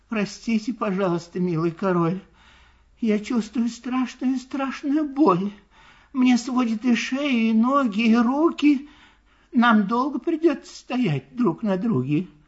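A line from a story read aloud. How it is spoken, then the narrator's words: Sad, quiet, polite turtle. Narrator (Russian): Вздохнула печально и горестно так одна черепашка по имени Мак и тихо и вежливо произнесла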